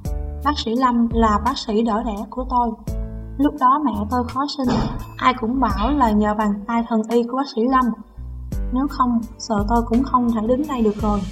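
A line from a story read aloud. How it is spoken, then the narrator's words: Young woman, smiling reply. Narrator (Vietnamese): Cô y tá trẻ mỉm cười đáp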